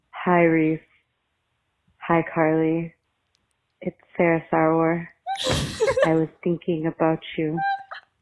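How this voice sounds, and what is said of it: Lowered pitch, imitates another person's voice. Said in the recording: “She was doing a Marina voice. It was really good. It was really good. ... She dropped ... a couple levels.”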